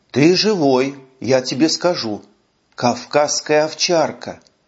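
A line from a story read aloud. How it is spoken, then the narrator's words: Whispered. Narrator (Russian): шепотом произнес Гриша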